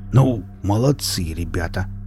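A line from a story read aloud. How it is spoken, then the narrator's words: Angry grumble. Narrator (Russian): гневно пробурчал он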